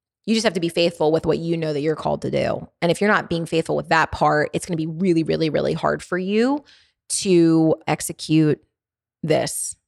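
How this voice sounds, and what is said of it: Strong Baltimore accent. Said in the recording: “I have a pretty intense Baltimore dialect. ... not every single one of my words comes out perfectly perfect ... I start rolling things together ... all rolled up and Baltimorean”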